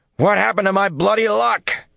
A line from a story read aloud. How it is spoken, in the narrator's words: he shouted